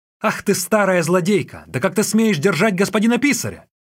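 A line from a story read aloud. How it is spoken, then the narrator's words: Shouted. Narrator (Russian): крикнул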